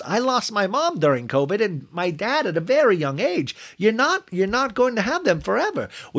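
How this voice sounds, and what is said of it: Put-on accent drifting toward Jersey. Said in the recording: “my accent now is almost turning into Jersey a little bit”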